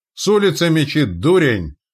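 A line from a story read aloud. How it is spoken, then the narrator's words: Angry bark. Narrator (Russian): рявкнул он зло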